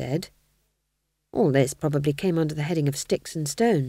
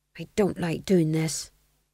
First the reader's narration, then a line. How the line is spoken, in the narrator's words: murmured under his breath